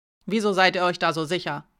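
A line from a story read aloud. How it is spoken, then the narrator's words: Sharp question. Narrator (German): fragte sie scharf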